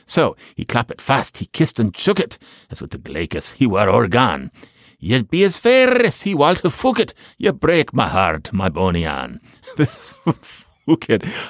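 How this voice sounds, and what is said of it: Poor attempt at Scottish accent. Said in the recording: “I'm insulting people in Scotland again with this non-accent. ... It's the best I can do.”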